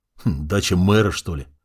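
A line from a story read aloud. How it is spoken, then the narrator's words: Amused snort. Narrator (Russian): хмыкнул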